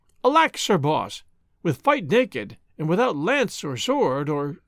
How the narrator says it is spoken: The queen exclaimed

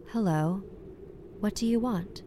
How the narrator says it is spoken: Her voice was very calm

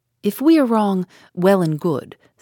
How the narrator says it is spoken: said Poirot

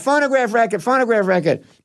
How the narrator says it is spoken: So that everyone's yelling out

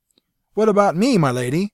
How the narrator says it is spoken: Severin cried

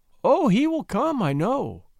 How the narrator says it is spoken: cried Prissy joyfully

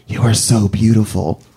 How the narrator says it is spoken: he puts his mouth close to my ear, and he whispers

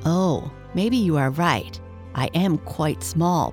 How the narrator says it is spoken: Percival said

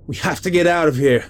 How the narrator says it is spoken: I yelled

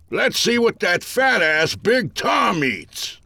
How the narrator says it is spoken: an old timer cried

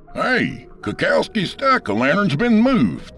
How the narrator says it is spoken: I heard Tyler Yablokov shout

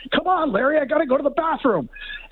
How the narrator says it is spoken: one guy yelling

